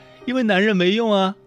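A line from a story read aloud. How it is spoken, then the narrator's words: Laughing heartily. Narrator (Chinese): 小 K 大笑着说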